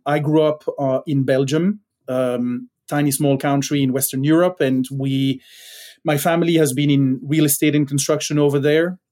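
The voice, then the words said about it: Non-native English accent. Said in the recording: “You can probably hear from the accent ... I'm still working on my accent.”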